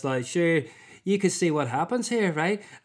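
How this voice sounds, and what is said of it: Put-on Northern Irish accent. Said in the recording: “I've obviously characterised that in a Northern Irish accent because, frankly, it was the funniest ... it was the funniest accent available”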